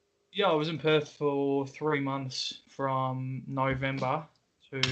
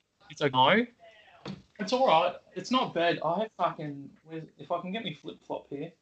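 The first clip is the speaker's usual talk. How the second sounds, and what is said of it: Put-on Australian accent. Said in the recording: “the key to an Australian accent is it's pretty much the O's. If you nail the O's, you're sorted. ... That's a tough accent. ... You got some skill at that.”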